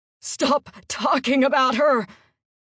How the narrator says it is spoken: he shouted

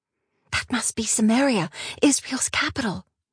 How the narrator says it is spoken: Yaira whispered

